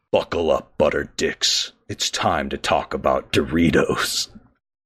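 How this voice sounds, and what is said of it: Exaggerated epic dramatic voice. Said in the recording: “I'm going to record this in my most epic voice.”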